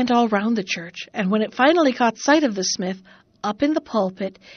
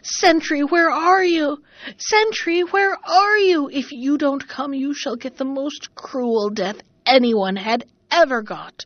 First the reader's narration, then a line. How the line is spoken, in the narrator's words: It shrieked and howled